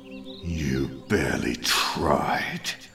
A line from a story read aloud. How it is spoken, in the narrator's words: snarled Marlowe